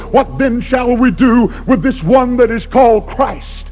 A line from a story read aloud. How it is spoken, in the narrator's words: When he cried to those people